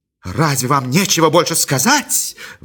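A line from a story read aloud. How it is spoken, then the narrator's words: Exclaimed. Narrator (Russian): воскликнула Чарити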